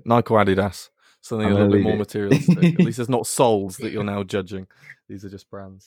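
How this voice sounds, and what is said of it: English accent. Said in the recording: “So it's the accent is throwing you off ... I don't pronounce either of those brands like that ... my old manager was English”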